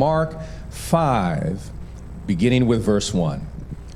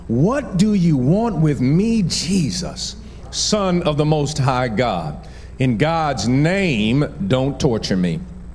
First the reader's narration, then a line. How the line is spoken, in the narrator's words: He shouted at the top of his voice